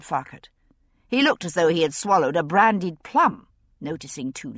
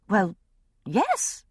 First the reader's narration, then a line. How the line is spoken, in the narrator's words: I said a little uneasily